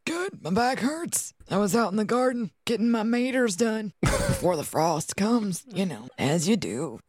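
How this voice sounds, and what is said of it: Old man character voice. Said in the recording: “doing her Harold voice ... It was the old man voice.”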